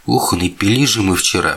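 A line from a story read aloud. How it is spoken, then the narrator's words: Moaning. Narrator (Russian): простонал я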